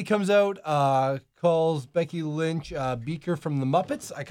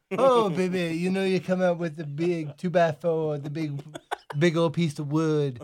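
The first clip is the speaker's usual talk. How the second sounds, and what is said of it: Imitates another person's voice. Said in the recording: “Can you say it as Dusty? ... He just throws baby into everything. It's like, this is ... doing his Dusty impression of, like, Hacksaw Jim Duggan.”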